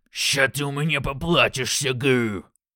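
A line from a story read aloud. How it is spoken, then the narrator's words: Orc growling. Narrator (Russian): рыкнул орк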